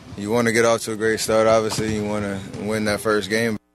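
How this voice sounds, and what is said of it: Bored monotone delivery. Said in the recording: “Could you sound more bored? ... He sounded pretty bored ... monotone ... you're still alive, but you're barely alive”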